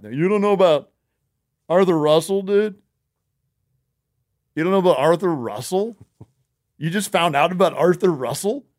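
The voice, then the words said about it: Impression of a typical show listener. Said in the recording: “That's my impression of a Best Show listener. ... It's pretty close.”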